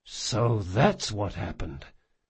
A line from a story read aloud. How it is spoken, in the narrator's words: Jean said very gently